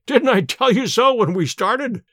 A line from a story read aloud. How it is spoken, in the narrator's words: cried Sherlock Holmes with a laugh